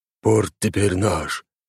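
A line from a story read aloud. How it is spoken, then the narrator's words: Hoarse. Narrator (Russian): хрипло произнес Грегор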